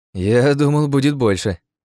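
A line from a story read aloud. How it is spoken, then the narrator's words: Snorting remark. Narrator (Russian): хмыкнул разговорчивый Дайма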